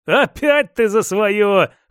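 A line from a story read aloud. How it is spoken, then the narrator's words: Chuckling. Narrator (Russian): хохотнул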